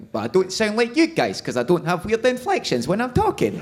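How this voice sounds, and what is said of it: Scottish accent. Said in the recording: “my accent, I'm from Scotland. I'm from Glasgow, but I don't sound that Glaswegian ... I talk through my throat, and that's much more of an Edinburgh thing”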